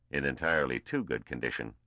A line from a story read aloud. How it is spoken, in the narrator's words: responded Barisov dryly